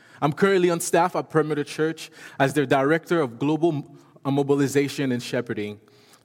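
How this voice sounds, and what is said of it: French accent. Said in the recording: “now I have a French accent.”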